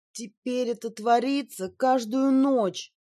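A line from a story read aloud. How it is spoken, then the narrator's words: Moaning. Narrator (Russian): простонала Джинджер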